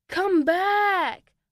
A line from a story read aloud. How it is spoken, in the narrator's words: Oliver shouted, hoping the snake could hear him